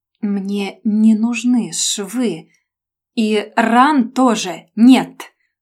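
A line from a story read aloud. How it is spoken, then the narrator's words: Syllable by syllable, clenched. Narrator (Russian): процедил он по слогам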